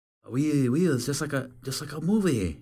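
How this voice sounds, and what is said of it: Weak attempt at French accent. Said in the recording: “Yeah, I can't do French accent.”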